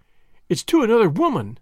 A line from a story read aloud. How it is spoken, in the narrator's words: she cried